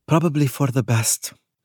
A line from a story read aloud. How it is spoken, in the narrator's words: sighed